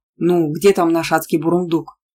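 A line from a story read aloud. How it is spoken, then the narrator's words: Grumbling. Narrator (Russian): проворчал Анин папа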